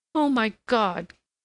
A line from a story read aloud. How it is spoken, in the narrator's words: cried the girl